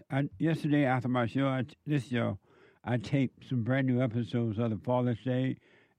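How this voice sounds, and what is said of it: Strained, fading voice. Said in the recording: “I feel like I'm losing my voice.”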